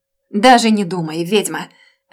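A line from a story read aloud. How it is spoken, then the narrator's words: Barked. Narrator (Russian): Рявкнул он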